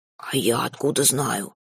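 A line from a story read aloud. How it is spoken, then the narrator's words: Whispering. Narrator (Russian): тоже шептал, как и я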